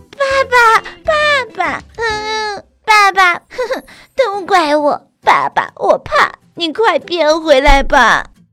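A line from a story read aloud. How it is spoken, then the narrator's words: Sobbing loudly. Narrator (Chinese): 卡卡大哭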